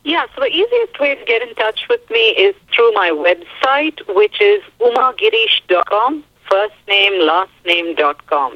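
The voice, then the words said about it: Indian accent in English. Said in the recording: “I love your voice. I love that Indian accent of yours and your beautiful English.”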